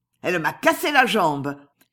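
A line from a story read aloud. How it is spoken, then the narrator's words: Shouting while getting up. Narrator (French): criait Contenson en se relevant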